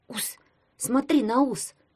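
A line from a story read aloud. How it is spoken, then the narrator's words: Whisper. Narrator (Russian): прошептал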